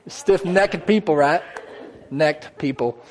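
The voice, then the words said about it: Country twang accent. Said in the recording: “That little accent, country twang got in there real fast, didn't it?”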